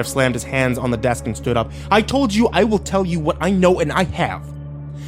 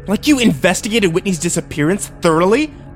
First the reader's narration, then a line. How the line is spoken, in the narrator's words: I spat